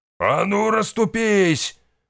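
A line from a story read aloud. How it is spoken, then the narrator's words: Shouting. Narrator (Russian): заорал тот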